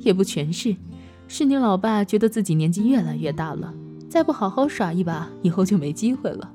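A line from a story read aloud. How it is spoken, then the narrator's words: Mother laughing. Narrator (Chinese): 老妈笑着说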